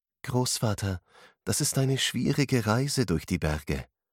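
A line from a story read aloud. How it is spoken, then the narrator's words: Gentle, worried. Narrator (German): antwortete sie sanft, denn sie machte sich Sorgen um seine Gesundheit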